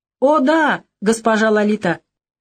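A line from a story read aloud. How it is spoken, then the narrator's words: Tipsy exclamation. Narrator (Russian): не очень трезвым голосом воскликнул один толстячок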